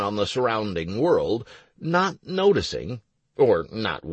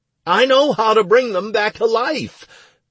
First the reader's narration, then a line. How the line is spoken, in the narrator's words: I cried, interrupting Elsa